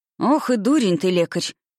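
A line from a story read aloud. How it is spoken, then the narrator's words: Grumbling through teeth. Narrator (Russian): колдун умудрялся ворчать сквозь зубы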